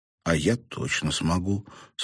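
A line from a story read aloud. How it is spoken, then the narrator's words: Calm assurance. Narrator (Russian): спокойно заверил он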